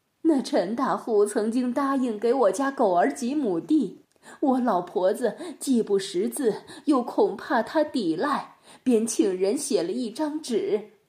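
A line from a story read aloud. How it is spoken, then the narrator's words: Old woman tearfully lamenting. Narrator (Chinese): 尤老婆子哭诉着说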